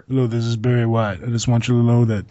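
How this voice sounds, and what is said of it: Deep sexy voice impression. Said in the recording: “you being Barry White on your new microphone and morning sexy voice”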